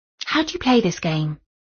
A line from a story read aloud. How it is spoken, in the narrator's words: asked Jenny a little timidly